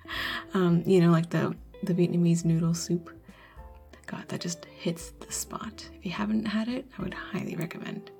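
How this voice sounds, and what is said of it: American accent. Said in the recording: “my cringy American accent”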